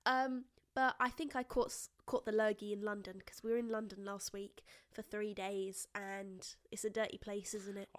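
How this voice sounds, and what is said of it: Voice sounds ill and rough. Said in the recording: “apologize for my voice ... And sound ... Worse than ever. The Horrid Henry is really coming out today. It comes out a lot when I'm ill.”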